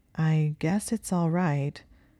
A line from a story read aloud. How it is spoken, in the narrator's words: Hermione said slowly